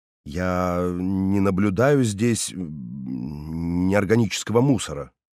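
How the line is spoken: Slightly unsure objection. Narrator (Russian): слегка неуверенно возразил я

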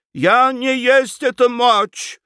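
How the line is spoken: Desperate shout. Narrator (Russian): в отчаянии закричала Лоренцо

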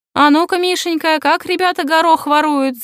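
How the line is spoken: Leader shouting. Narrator (Russian): закричал вожак

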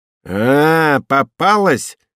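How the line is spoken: Shouting. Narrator (Russian): закричала

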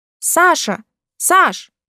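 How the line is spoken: Louder shout. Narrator (Russian): крикнула погромче

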